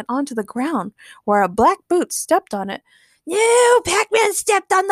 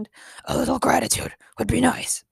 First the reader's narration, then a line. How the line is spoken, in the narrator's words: Batman muttered